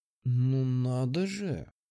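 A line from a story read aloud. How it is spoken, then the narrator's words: Sweetly venomous drawl. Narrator (Russian): Протянула она, и в ее голосе звучала сладостная ядовитость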